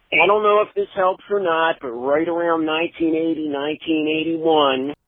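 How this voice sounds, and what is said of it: Philadelphia accent. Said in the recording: “I could tell in 1 second when it's a Philly. That accent.”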